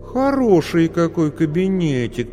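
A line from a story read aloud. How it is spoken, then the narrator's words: Drawn-out speech. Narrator (Russian): протянула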